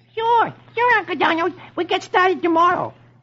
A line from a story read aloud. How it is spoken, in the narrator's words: his nephews say cheerfully